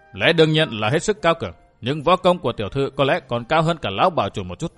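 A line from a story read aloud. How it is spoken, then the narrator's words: Stern voice. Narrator (Vietnamese): Vũ Á Vinh nghiêm giọng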